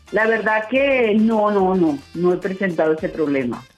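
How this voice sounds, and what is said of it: Chilean-sounding Spanish accent. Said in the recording (Spanish): “acento tan lindo tienes? Como que chilena ... Se te pegó el acento chileno”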